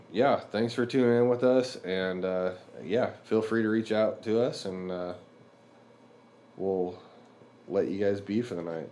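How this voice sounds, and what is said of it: Weird, stuffy head-cold voice. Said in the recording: “Sorry for the weird voice tonight. I got a head cold”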